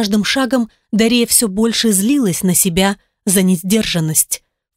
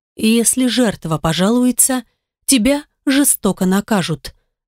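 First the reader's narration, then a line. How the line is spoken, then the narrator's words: Inner whisper. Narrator (Russian): нашептывал опыт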